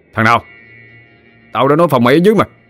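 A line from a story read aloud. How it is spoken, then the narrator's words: Shouting. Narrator (Vietnamese): Bùi quát lên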